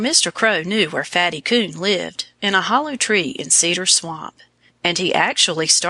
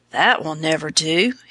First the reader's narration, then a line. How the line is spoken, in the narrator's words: he croaked